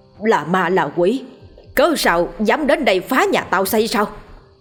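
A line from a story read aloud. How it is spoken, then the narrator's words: Loud voice. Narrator (Vietnamese): Ông lớn tiếng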